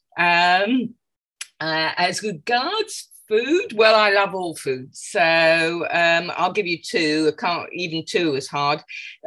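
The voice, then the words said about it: London English accent. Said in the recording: “I'm calling from London, England, as you can probably tell by my accent.”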